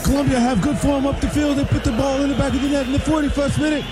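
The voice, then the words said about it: British soccer announcer accent. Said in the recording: “All the accent I'll do is British. That's it. The British soccer announcers.”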